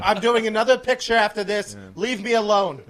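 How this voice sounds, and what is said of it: Impression of Grand Moff Tarkin. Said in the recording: “that's my Grand Moff Tarkin ... that would be Peter Cushing”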